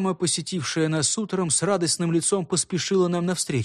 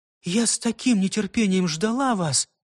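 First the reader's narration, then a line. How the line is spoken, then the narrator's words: Woman exclaiming. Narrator (Russian): воскликнула она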